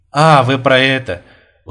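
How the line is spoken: Tired smile. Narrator (Russian): устало улыбнулся Бурмистров

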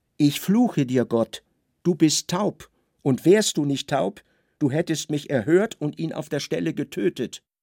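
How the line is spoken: Exclaimed. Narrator (German): Levi rief aus

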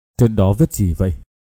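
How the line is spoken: Trembling question. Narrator (Vietnamese): Trường Ngưng run run hỏi

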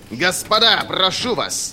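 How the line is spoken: Roaring. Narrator (Russian): взревел Берр

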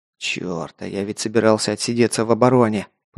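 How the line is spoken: Muttering man. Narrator (Russian): пробормотал майор

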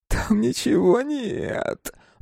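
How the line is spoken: Whining. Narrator (Russian): заскулил он

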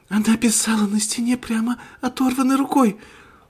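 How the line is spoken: Sobbing. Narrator (Russian): всхлипнула Рэйчел

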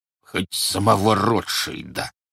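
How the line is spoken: Words through clenched teeth. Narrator (Russian): процедил Бурляев

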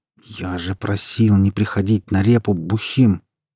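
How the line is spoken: Angry, through gritted teeth. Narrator (Russian): Злобно процедил он сквозь зубы

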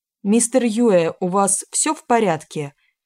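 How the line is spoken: Tense shout downward. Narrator (Russian): крикнул вниз напряженный Данила

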